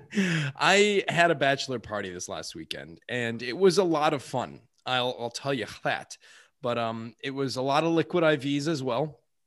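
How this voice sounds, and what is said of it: Slightly tired voice. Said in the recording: “my voice is a little tired”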